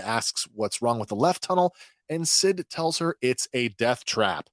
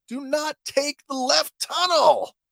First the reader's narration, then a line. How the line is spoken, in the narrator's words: Sid radios, yelling at Teo